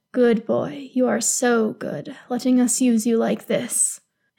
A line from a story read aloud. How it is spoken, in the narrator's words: whispers